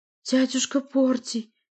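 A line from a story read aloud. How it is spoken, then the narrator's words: Pleading voice. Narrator (Russian): молящим голосом обратилась Валерия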